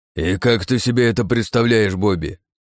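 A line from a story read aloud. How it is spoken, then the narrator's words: Snapping back. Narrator (Russian): огрызнулся Джонсон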